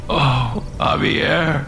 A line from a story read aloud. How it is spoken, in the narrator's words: Alex whimpered